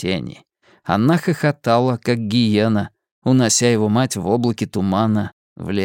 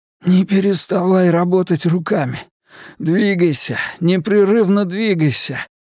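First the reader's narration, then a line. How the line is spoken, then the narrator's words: Hoarse urgent croak. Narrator (Russian): прохрипел он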